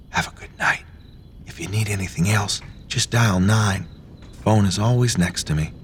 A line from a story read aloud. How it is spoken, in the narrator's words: Martha turns at the doorway and whispers